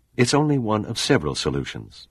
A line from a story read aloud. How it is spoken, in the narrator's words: Dana replied